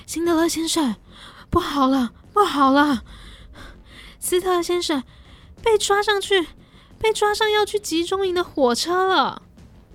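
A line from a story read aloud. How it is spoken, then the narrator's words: Panicked, breathless shouting. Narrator (Chinese): 一名犹太工人气急败坏地……气喘吁吁地大声地叫着辛德勒的名字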